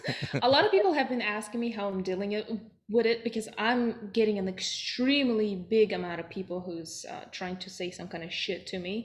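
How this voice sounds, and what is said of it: Speaks with a foreign accent. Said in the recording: “with the accent, that's the best thing I've heard in a while”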